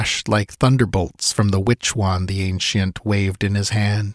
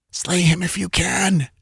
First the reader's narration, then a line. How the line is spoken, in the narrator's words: she panted